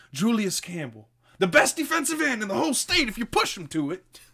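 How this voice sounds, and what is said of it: Bad impersonation of a movie character. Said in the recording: “I'm probably going to do a lot of bad impersonations.”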